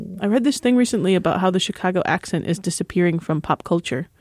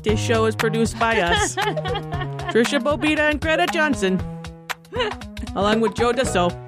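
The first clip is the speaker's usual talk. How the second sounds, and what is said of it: Put-on Chicago 'Da Bears' accent. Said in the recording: “Should we do the end credits in the Chicago ... DaBears ... accent? ... Is this a Chicago accent or am I just doing a bad impression of the SNL sketch? ... I think you're doing a great job”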